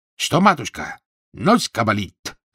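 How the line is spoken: Shouting, comically mangled words. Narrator (Russian): закричал, смешно коверкая слова

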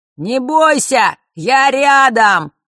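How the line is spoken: Shouting into ear. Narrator (Russian): прокричал ей в ухо Фэш

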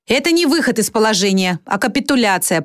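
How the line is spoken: Grumbling. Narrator (Russian): проворчала акула

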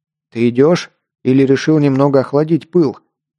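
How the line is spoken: Snort. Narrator (Russian): хмыкнул подошедший Альф

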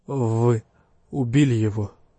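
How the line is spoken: Strained forced words. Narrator (Russian): выдавил из себя Мэрот

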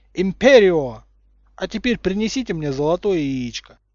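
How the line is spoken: Shout. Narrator (Russian): закричал

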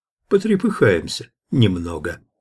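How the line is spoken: Calm. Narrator (Russian): спокойно ответил Иван

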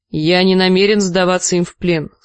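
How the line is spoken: Plain. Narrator (Russian): сказал лорд Беррик

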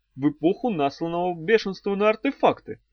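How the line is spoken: Thoughtful. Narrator (Russian): задумчиво произнес Арей

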